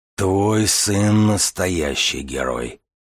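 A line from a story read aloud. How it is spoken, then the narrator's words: Hoarse voice. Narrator (Russian): хрипло проговорил Боригор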